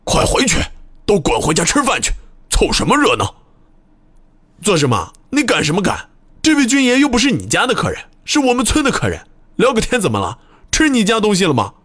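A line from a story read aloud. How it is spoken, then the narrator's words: Angry shouting. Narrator (Chinese): 村长 怒气冲冲地朝人群叫喊道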